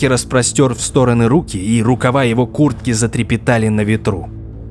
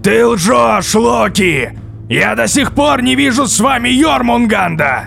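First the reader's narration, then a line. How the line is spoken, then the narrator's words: Shouted angrily. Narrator (Russian): прокричал в ответ Один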